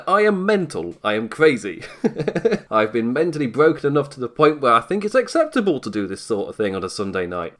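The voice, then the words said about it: English accent. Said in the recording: “you can tell by my accent, I'm English”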